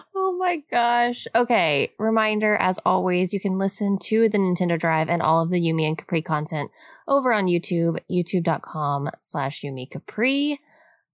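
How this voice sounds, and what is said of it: Raspy, sick-sounding voice. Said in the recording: “Because obviously I'm also sick. So y'all enjoy this wonderful raspy episode.”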